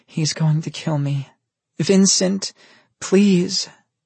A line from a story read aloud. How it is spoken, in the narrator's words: she moaned